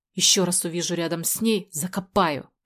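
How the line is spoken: Hoarse wheeze. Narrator (Russian): просипел он

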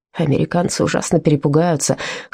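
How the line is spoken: Snorting chuckle. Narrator (Russian): хмыкнул

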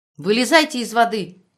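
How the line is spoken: Angry shout. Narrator (Russian): сердито крикнула Тамара

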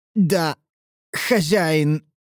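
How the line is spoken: Forced, reluctant utterance. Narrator (Russian): выдавил он из себя против своей воли

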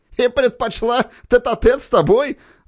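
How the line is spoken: Laughing officer. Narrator (Russian): засмеялся один из офицеров

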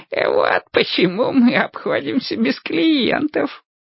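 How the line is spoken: Old man's giggle. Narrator (Russian): хихикнул старик

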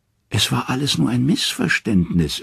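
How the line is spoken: Whimpering. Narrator (German): wimmert Loki

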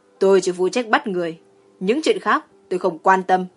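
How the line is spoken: Cold snort. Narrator (Vietnamese): Dương Phá Quân hừ một tiếng lạnh lùng, nói

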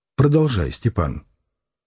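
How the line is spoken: Quiet. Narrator (Russian): Спивак тихо сказала

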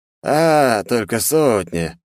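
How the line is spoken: Relieved exhale. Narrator (Russian): облегченно выдохнул Хамарил

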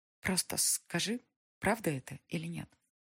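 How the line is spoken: Quiet. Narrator (Russian): произнесла Алиса тихо

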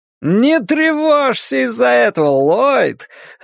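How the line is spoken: Joyful exclamation. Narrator (Russian): радостно воскликнул темный человек

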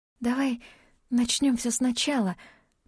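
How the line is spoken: Whisper. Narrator (Russian): прошептала она

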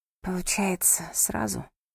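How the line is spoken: Whisper. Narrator (Russian): снова шептала Роуз

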